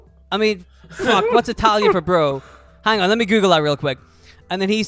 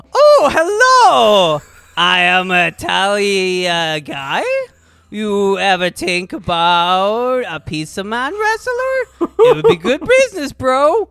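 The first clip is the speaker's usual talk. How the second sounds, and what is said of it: Put-on Italian accent. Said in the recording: “I got my Italian accent ready ... I blast him with my Italian accent ... remember, Italian accent”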